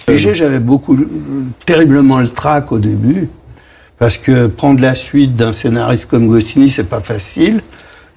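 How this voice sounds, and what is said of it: Strong Parisian working-class accent. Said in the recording (French): “il avait cet accent parigot qu'on va reconnaître ... l'accent très parigot, très titi parisien”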